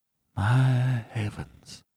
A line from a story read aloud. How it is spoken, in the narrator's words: he murmured in an ecstasy of horror